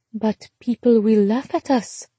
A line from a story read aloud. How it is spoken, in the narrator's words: Charlotte said softly